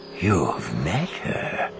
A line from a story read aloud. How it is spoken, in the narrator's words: he breathed